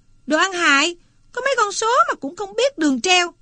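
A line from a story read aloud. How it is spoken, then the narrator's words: Sudden yell. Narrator (Vietnamese): Chợt nó la lên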